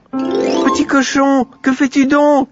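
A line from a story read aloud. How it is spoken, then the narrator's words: Little girl shouting. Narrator (French): cria la petite Aurore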